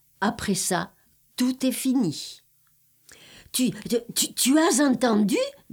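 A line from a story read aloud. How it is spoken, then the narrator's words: Stammering man. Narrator (French): bégayait-il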